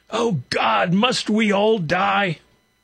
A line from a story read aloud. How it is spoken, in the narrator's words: Sobbing shouted